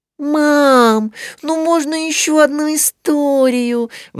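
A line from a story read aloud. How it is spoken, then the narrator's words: Pleading. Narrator (Russian): взмолилась Мари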